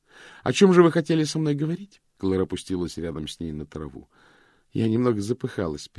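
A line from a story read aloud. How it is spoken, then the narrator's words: Conciliatory tone. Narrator (Russian): примирительным тоном произнесла она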